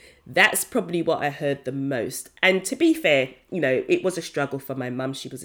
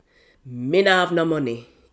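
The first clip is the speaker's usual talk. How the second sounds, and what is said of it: Jamaican accent. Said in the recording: “this is my Jamaican accent, guys, this is my background, so I have to say it with the accent”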